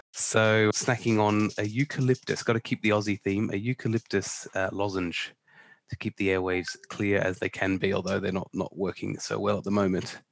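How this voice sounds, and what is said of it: Sick, under-the-weather voice. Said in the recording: “as you can probably tell in my voice, I'm a little under the weather”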